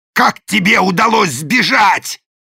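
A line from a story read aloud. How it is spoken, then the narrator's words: Growl. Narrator (Russian): зарычал даймё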